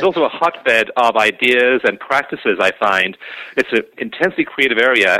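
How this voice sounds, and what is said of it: Slight foreign accent. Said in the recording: “you have a bit of an accent”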